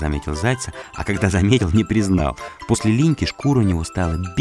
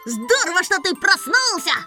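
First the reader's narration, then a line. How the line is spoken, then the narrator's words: Shouting. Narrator (Russian): крикнул Сенька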